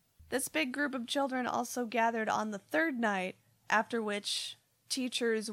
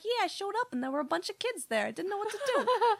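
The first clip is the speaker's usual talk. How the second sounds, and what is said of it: Inconsistent put-on Boston accent. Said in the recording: “I'm also maybe from Boston or something... My accent's all over the place.”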